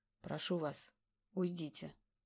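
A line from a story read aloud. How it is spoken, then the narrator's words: Quiet. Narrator (Russian): тихо произносит Сергей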